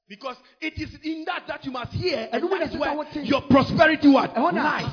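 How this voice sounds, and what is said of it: Speaks with a noticeable accent. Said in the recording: “My accent is a stumbling block.”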